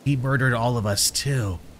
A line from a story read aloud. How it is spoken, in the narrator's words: the boy gurgled in his low, eerie voice